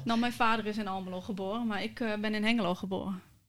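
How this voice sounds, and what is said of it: Twente regional Dutch accent. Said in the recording (Dutch): “aan mijn accent te horen eh, ben ik hier ook opgegroeid en geboren ... In Twente ... het Twentse element toch eerder naar boven komt ... Zodra ik begin te praten, dan kan ik er niet omheen”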